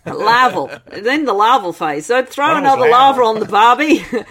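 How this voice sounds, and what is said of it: Put-on Australian accent. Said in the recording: “Which would sound great in Australian accent, actually.”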